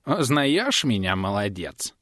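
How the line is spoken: Creaky old sorcerer, smirking. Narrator (Russian): проскрипел ведун с кривой усмешкой

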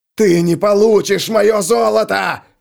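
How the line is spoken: Yelled. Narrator (Russian): заорал Стег

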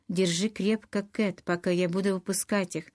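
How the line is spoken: Quick speech. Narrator (Russian): быстро сказала Скарлетт

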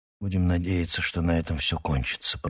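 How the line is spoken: Whisper. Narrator (Russian): прошептал

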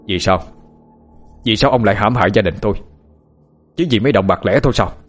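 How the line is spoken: Angry question. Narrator (Vietnamese): Ông Hào hỏi trong cơn tức giận

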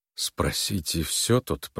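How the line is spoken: Mutter. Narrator (Russian): пробормотал он

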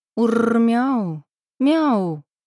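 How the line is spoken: Sudden shriek. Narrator (Russian): вдруг взвизгнула

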